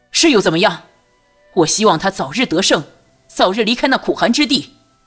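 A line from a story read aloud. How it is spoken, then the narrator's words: Nearly shouting. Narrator (Chinese): 朱瑜几乎是喊了出来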